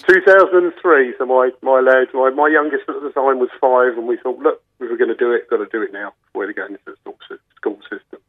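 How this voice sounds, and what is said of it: Non-local accent, not from Mallow. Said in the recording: “I can hear by your accent, you're not Mallow born.”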